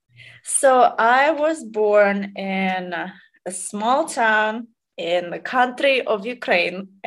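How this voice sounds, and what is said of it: Noticeable foreign accent. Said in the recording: “you obviously have an accent.”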